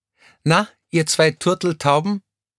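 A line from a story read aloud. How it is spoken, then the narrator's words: Nearby call. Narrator (German): rief jemand in der Nähe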